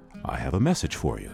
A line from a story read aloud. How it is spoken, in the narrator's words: he said